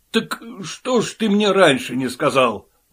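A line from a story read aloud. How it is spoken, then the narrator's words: Exclaiming. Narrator (Russian): воскликнул Оттис Бигл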